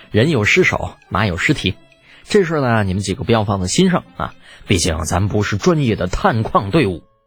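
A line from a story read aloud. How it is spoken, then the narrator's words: Rueful chuckle. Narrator (Chinese): 李浩摇头失笑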